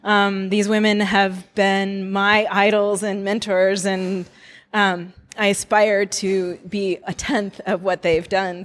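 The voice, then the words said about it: Voice choked with emotion. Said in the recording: “I'm getting choked up already”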